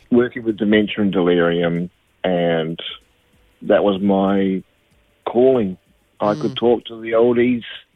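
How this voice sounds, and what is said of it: New Zealand accent. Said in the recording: “a New Zealand accent”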